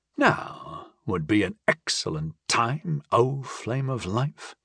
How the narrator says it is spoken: I mumbled sarcastically around the stem

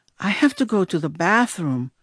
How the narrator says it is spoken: whispered back

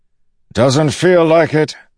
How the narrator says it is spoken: Dalinar shouted back

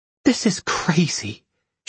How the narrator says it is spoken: she whispered

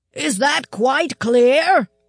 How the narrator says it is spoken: he was shouting the words

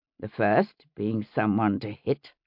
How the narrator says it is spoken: William muttered

